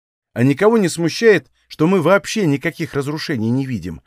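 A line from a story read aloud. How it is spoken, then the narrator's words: Plain question. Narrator (Russian): спросил Танис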